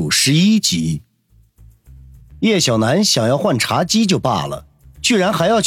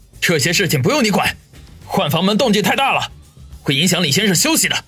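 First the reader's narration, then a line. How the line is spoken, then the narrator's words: Alarmed, angry. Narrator (Chinese): 王宇顿时大惊失色，怒声的说道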